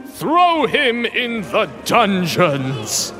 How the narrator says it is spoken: the emperor bellowed

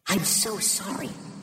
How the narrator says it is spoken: she whispered

